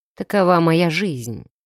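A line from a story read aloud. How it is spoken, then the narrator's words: Cold remark. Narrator (Russian): холодно заметил он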